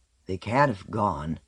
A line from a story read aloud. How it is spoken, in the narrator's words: muttered